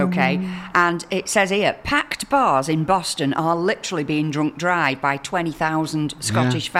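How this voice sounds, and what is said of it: Usual voice. Nothing is said of it.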